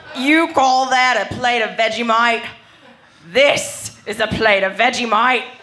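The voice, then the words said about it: Exaggerated Australian accent. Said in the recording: “They all have horrible Australian accents ... You call that an Australian accent? This is an Australian accent.”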